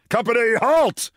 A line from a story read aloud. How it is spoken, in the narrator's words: shouted General Littlefield